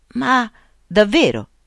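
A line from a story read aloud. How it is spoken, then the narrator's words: Old man exclaiming. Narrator (Italian): esclamò il vecchio Jacob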